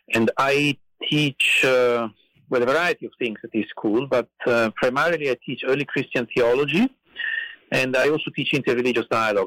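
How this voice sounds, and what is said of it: Italian accent. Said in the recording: “as you can probably tell from my accent, I grew up in Italy”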